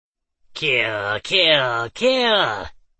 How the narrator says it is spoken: It screeched loud enough to be heard by all

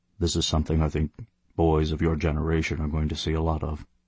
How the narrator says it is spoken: he said quietly

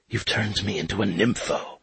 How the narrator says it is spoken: she whispered, as if Tinkerbell might understand

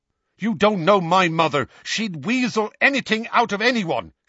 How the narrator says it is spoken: Seamus snapped at him

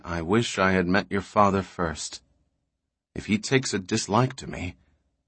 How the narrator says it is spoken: She said gravely

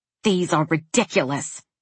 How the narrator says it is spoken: he snapped

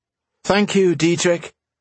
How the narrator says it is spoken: she said loudly

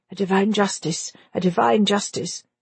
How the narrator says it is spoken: and muttering

